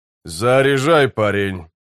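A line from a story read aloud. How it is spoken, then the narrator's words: Grumbling. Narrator (Russian): проворчал Геслер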